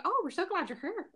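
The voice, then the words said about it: Put-on Irish accent. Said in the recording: “I make it sound Irish, like when I say it”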